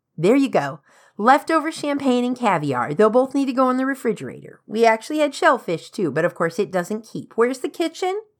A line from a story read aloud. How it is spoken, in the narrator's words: asked in a loud and cheerful voice